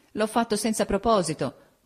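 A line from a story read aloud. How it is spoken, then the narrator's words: Laughing through tears. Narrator (Italian): disse ridendo fra le lacrime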